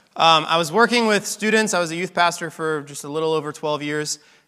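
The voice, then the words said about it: Hoarse, strained voice. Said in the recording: “I'm losing my voice a little bit this morning.”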